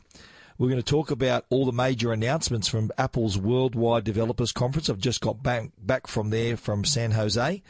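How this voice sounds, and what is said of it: Croaky, hoarse voice. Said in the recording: “I must apologise for my voice. I've had a touch of laryngitis. I am getting over it. I've had a bit of a throat condition ... this croaky voice”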